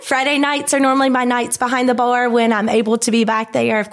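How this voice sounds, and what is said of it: Hyde County regional accent. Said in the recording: “that beautiful Hyde County accent”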